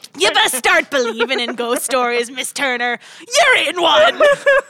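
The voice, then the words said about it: Pirate-style West Country accent impression. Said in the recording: “I could do a pirate accent ... That's almost like West Country ... I can do Jeffrey Rush from Pirates of the Caribbean”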